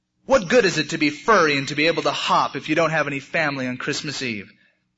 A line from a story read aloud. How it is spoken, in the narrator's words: Barrington cried and cried